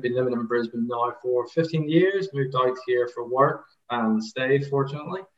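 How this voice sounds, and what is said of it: Irish accent. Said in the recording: “as you can tell, Irish accent”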